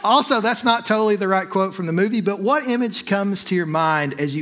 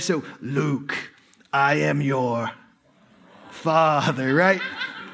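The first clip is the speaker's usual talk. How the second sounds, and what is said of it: Deliberately bad Darth Vader voice. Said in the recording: “I'm going to use a terrible accent here... terrible voice”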